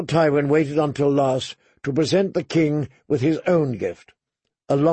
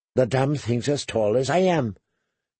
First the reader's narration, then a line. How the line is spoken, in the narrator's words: Tyrion muttered in a low voice